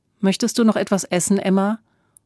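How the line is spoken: Plain. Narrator (German): fragte Otto Kaiser

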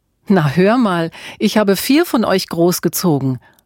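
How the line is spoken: Laughing mother. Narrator (German): lachte Mutter Auguste

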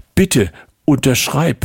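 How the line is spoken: Pleading. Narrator (German): flehte sie

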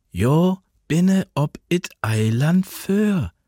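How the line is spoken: Slow, patient, as to child. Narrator (German): sagte sie, langsam und geduldig, als spräche sie zu einem Kind

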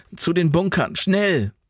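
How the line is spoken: Called out. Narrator (German): rief Jan

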